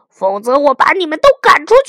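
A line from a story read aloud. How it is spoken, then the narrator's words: King roaring. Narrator (Chinese): A、B、C 国王吼道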